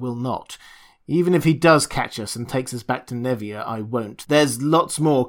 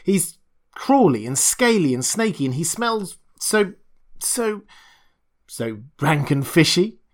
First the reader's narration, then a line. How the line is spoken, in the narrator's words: Costigan laughed deeply